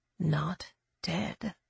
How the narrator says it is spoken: she said softly

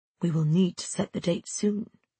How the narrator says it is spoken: he whispered, leaning into my ear

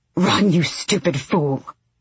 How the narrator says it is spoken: Lorkin hissed

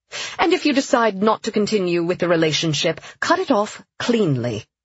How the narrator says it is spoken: Sienna said firmly

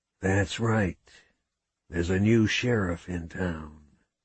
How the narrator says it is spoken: whispered

